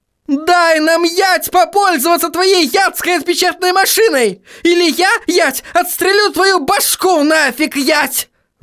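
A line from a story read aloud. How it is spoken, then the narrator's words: Yelled. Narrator (Russian): заорала она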